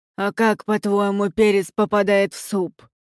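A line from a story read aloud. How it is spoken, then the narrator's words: Angry muttering, cook. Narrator (Russian): Сердито буркнула кухарка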